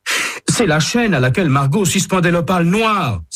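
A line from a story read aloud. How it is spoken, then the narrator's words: Exclaiming. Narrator (French): s'écrie-t-il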